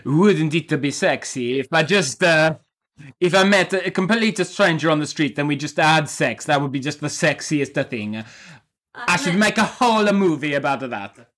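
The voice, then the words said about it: Generic put-on Italian accent. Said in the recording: “I'm going to do a generic Italian accent.”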